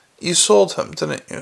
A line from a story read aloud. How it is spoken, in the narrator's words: said Carrot quietly